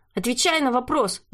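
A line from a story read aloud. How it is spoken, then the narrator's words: Shouting. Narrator (Russian): выкрикнул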